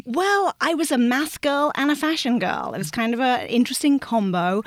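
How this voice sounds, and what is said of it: English accent. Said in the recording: “I grew up in England, as you might be able to tell from the accent, just north of London”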